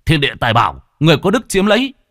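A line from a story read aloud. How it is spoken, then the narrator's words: Shout. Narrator (Vietnamese): Lâm Phong chỉ hét lên một tiếng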